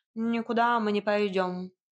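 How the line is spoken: Lazy curt cat. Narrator (Russian): лениво отрезал кот

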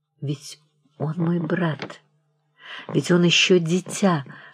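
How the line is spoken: Whisper. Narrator (Russian): шептала она

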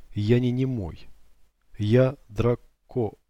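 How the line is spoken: Sudden muffled clipped speech. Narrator (Russian): вдруг глухо, отрывисто произнес

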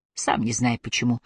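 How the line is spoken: Mumbled. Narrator (Russian): пробормотал Аллейн

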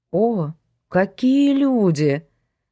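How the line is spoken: Mocking drawl. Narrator (Russian): насмешливо протянул коллега

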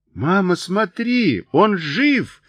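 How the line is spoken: Shouted. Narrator (Russian): закричал Джой

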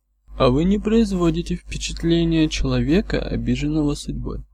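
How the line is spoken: Calm reply. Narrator (Russian): спокойно ответил часовщик

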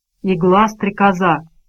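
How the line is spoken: Whisper. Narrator (Russian): прошептал мистер Мрак

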